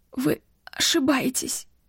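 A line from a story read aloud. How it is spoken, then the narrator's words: Forced out with difficulty. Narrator (Russian): кое-как выдавила из себя Вив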